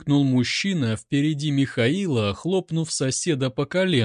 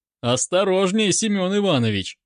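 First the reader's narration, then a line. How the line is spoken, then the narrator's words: Laughing. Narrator (Russian): засмеялся сосед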